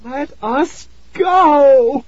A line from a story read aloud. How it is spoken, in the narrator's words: Tara cried in a high, trembling voice